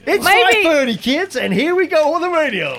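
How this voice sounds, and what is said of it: Wacky goofball radio DJ voice. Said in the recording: “now do a wacky radio goofball twatted radio”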